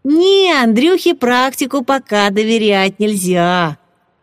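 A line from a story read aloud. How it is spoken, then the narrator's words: Cheerful declaration. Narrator (Russian): весело заявил Руслан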